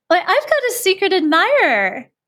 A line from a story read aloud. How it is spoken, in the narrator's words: exclaimed